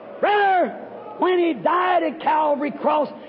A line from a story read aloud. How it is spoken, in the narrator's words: he cried